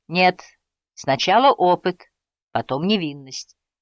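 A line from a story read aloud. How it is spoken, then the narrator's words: Laughing. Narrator (Russian): смеялся Говард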